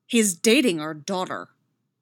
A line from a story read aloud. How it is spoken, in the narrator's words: Chris barks